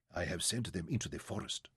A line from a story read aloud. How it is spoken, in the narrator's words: he answered quietly